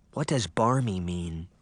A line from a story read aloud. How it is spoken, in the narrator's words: Daphne whispered to her sister